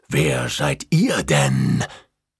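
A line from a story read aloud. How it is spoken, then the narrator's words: Unfriendly hiss. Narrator (German): faucht es unfreundlich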